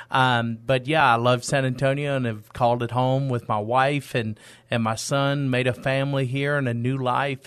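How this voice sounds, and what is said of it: East Texas accent. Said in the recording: “the listeners might be able to pick up on this accent a little bit ... I am from East Texas”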